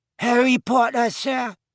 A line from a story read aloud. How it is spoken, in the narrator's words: squeaked Dobby